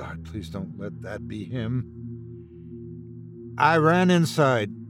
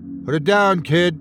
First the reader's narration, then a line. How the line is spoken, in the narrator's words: he shouted